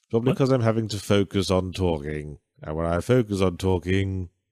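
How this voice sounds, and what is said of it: Posh British received pronunciation accent. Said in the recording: “posh British accent ... I have a received pronunciation accent ... you almost sound like you could be like the concierge at a fancy hotel”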